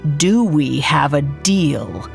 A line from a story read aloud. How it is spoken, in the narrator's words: she asked, almost growling